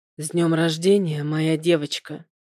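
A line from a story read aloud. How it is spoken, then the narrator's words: Intimate breathy whisper. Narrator (Russian): выдохнул Артем мне прямо в губы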